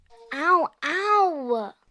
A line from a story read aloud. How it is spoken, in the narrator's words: Emery whined